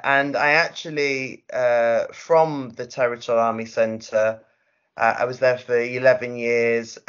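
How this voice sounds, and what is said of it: Manchester English accent. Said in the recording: “if you can't tell from the accent, I'm from Manchester... That accent is here to stay.”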